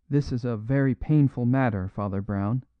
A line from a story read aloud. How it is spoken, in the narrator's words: said Adams